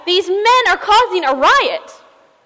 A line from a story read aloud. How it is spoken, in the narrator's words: they screamed to the crowd